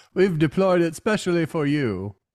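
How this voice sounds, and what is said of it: Weird put-on accent. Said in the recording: “I'm talking in this weird accent”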